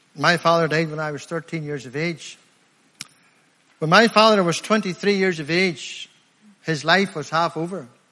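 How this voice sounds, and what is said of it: Rural Limavady District accent. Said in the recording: “I'm from Limavady District ... I'm a country lad ... You know by my accent, I'm not from around here”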